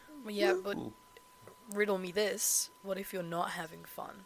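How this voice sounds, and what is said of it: Nasal, lower-pitched congested voice. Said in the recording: “I'm still kind of sick... I'm just nasally... It's lower than it usually is... I'm going over a cold”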